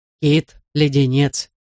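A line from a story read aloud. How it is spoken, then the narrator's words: Plain. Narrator (Russian): ответил мистер Каткоут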